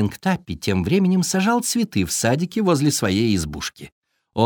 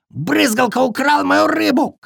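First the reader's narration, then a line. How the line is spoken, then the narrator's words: Shouting beaver. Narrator (Russian): кричал бобер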